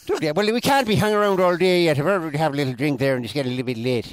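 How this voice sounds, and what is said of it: Put-on Irish accent. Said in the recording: “It's Mrs. Brown ... I can't help but join in on the accent ... Irish”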